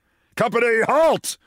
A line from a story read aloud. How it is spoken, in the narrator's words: shouted General Littlefield